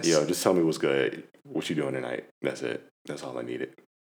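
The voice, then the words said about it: Put-on smooth voice. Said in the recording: “you put on the smooth voice.”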